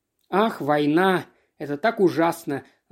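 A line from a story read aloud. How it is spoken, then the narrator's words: Sighing woman. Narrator (Russian): вздохнула фрау Бек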